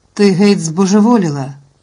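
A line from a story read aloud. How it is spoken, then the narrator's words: Exclaimed. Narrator (Ukrainian): вигукнув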